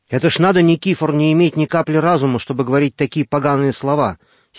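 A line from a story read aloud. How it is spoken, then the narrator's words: Angry exclamation. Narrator (Russian): сердито воскликнул Йося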